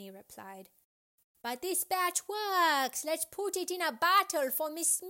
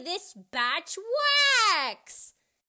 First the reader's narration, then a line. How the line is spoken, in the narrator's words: Xiao Chu yelled excitedly